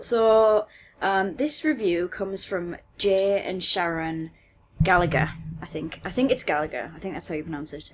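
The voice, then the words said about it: Northeast English accent. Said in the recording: “I'm from the northeast of England. ... If you couldn't tell from her accent.”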